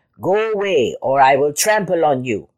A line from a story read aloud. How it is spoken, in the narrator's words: the bad animal said more crossly than before